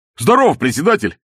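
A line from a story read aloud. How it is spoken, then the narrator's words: Loud bark. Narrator (Russian): гаркнул новоприбывший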